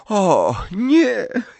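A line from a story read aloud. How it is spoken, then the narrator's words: Groaned. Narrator (Polish): jęknęła Hermiona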